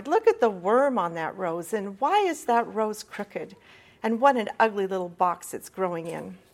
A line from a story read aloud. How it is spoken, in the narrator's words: he cried